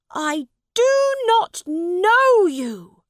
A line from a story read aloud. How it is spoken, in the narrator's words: said Edward angrily